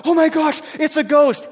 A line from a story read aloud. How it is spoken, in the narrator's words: cried out